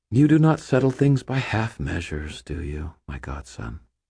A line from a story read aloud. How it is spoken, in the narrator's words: She let out a contented sigh and said